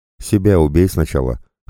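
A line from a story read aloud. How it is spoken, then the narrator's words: Snort. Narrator (Russian): хмыкнул я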